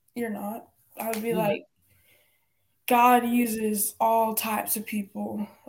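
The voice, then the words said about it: Country accent slipping out. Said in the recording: “Like, ooh, that sounded country. ... dang, that sounded country ... a country accent. All that accent came out just that minute.”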